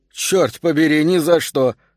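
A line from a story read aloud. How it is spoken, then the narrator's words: Joking with loud laugh. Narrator (Russian): сказала Герда и громко засмеялась, чтобы стало ясно, что она шутит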